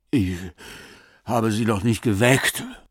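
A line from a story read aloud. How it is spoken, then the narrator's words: Panting. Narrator (German): keuchte Rabenwall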